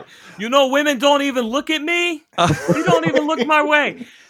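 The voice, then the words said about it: Put-on Brooklyn accent. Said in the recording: “Incoherent, but a Brooklyn accent.”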